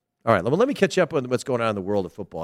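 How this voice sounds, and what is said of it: Tired, exhausted-sounding voice. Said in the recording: “do I sound tired? I must sound exhausted because I am shattered. I am shattered.”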